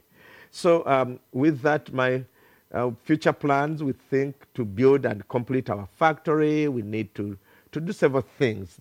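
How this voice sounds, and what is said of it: Heavily accented, uncoordinated English. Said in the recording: “my bad accent and my uncoordinated English”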